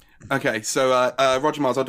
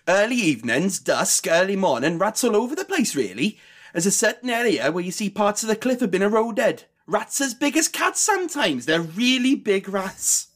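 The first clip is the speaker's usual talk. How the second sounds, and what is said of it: Put-on Welsh accent. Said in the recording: “I'll do it in the Welsh accent as well.”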